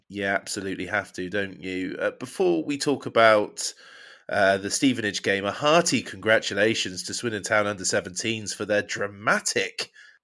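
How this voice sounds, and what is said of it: Ill, strained voice. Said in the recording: “I'm poorly still. I can't shake it off ... my voice is a little bit more distracting than normal”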